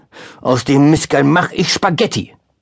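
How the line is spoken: Calling out. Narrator (German): rief

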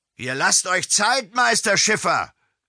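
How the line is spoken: Call out. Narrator (German): rief Josef Steinhaus

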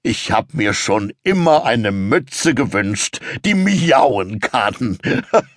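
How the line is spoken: Laughing. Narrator (German): sagt lachend

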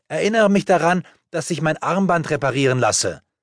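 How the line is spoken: Calling out. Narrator (German): rief Sarah zu

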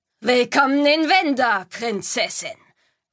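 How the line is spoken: Mocking. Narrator (German): höhnte er

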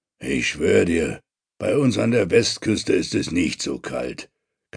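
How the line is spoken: Growling. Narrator (German): knurrt Thorberg

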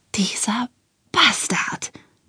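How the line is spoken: Whispered. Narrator (German): flüsterte

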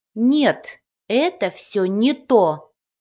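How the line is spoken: Stern fairy voice. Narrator (Russian): строго произнесла фея

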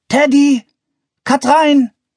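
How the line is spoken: Called. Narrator (German): rief er

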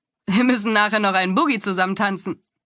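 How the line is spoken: Laughing. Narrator (German): hatte er lachend gesagt

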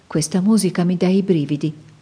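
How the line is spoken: Murmured. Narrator (Italian): mormorò Astrid

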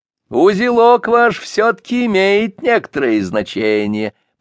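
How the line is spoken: Official continuing after laughter. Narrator (Russian): продолжал чиновник, когда нахохотались досыта

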